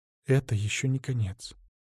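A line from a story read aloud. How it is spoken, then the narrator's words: Soft, quiet. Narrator (Russian): дракоша тихонько сказал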